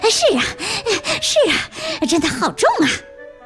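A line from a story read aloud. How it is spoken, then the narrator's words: Heavy panting. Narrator (Chinese): 蹦蹦也喘着粗气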